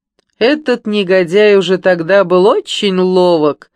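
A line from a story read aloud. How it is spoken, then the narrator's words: Booming laugh. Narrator (Russian): раскатисто захохотал капитан Кураж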